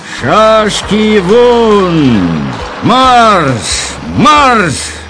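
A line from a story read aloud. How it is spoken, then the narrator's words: Drawn-out shout. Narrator (Russian): Емельянов крикнул протяжно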